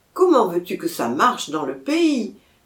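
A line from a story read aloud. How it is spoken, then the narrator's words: Little man exclaiming. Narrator (French): s'écriait le petit homme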